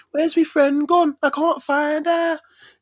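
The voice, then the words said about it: Put-on Birmingham accent. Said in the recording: “you know, that Birmingham accent.”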